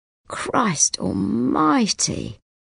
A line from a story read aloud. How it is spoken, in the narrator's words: Gallagher moans